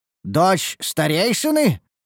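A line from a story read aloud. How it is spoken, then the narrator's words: Exclaiming. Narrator (Russian): воскликнул я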